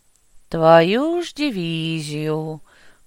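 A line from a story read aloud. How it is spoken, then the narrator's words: Drawled. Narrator (Russian): Протянул я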